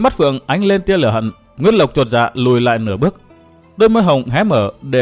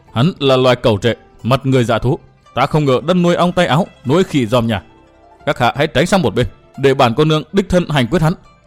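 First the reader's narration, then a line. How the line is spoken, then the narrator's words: Hissed through teeth. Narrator (Vietnamese): Giọng nàng rít qua kẽ răng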